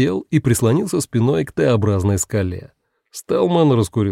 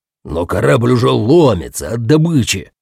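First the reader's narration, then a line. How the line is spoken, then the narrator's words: Exclaiming. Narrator (Russian): воскликнул Пакстон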